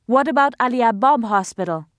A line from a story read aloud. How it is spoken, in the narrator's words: another man cried